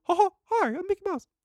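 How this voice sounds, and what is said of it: Mickey Mouse cartoon voice. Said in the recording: “Your Mickey impression isn't half bad... I used to do it too high”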